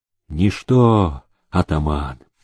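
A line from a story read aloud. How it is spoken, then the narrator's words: Calm. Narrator (Russian): спокойно сказал он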